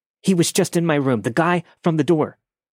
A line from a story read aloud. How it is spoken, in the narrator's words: me hysterically trying to explain